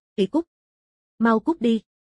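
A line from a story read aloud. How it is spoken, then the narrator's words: Terrified frantic scream. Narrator (Vietnamese): Bạch Đà kinh hãi, sợ hãi hơn, hoảng loạn, điên cuồng hét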